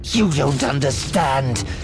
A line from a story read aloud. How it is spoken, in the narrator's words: Ventress cried